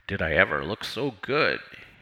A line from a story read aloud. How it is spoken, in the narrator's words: he mumbled